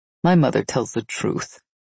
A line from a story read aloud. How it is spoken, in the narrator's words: Seth said in the same kind voice he always used